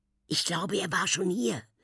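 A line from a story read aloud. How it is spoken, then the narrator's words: Whispered reply. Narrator (German): flüstert sie zurück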